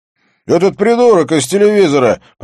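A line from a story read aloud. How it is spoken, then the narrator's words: Shouted. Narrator (Russian): прокричал Бьорн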